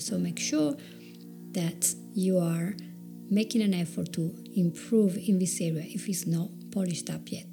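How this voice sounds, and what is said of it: Italian accent in English. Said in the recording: “I do have my Italian accent. I probably will never lose it.”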